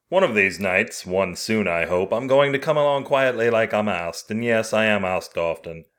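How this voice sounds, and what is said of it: Put-on English accent narration. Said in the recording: “my shitty English accent ... it seemed improper to do it in American”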